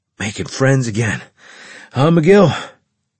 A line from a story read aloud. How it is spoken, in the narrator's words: Carlos grunted out